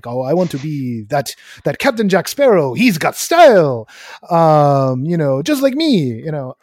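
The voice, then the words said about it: Bad Hondo character impression. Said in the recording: “that was a very bad Hondo impression.”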